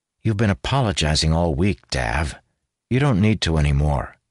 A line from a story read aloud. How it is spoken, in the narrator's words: he said, his tone firm